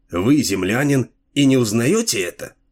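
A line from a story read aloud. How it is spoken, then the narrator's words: Skeptical snort. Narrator (Russian): Дилуло хмыкнул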